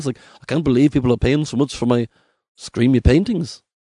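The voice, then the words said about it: Wavering put-on Norwegian accent. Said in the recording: “This accent's wavering, but you understand, I don't know where he's from. I all of a sudden realized I was doing kind of a Japanese thing when I was trying to do German, and he's really from Norway. Norway's maybe more of a lake, kind of more like this ... That was a little Paul McCartney”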